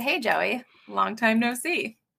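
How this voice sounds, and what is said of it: Put-on British accent. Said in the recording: “That was not good ... my accent, my British accent”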